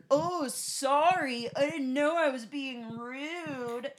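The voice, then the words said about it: Loud mocking shouted impression. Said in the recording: “he was, of course, increasing in volume... He was loudly like... had to move the microphone away from her face to do that impression”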